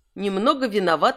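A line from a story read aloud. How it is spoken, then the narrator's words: Plain. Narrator (Russian): сказал Кант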